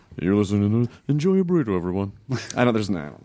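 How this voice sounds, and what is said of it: Weird put-on voice. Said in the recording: “That's a weird voice. You never used that before.”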